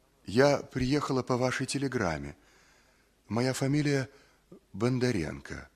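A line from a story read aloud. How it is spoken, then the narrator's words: Timid. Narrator (Russian): сказала робко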